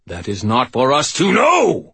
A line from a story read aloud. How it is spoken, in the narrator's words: Michael shouted